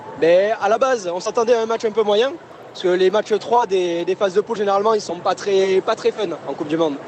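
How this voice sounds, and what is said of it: Southern French accent. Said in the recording (French): “on va reconnaître votre accent, vous êtes de Toulouse ... Et un peu l'accent du Sud.”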